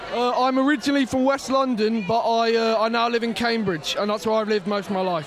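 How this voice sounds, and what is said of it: British accent, not American. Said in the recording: “noticing by your accent, you're not American”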